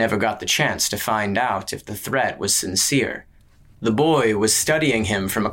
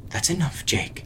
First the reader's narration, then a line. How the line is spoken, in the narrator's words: his wife muttered